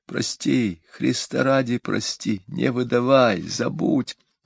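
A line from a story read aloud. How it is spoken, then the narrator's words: Silently mouthed after faint sob. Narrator (Russian): Едва слышно всхлипнув, даже не прошептала, только показала губами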